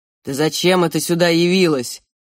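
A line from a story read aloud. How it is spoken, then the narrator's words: Growled. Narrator (Russian): прорычал он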